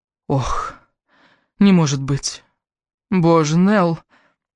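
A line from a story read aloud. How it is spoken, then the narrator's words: Heavy sigh. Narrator (Russian): Подруга тяжело вздохнула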